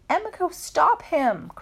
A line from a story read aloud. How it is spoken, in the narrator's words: cried Nadia